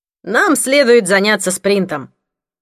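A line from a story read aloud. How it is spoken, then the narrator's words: Loud. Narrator (Russian): громко произнес Патрик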